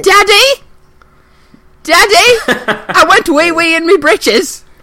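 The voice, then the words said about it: Young British boy voice. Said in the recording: “I want the young British kid ... I said the young British boy.”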